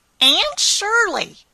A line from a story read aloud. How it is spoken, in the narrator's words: exclaimed